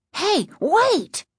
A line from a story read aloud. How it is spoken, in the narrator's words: Casey cried